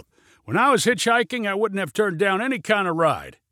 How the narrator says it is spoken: yelled Junie

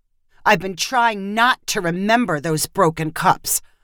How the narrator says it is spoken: Holly said bitterly

